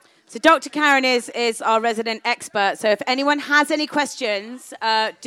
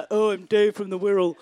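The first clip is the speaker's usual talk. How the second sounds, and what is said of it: Silly put-on character voice. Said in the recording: “You can put on a silly voice if you like.”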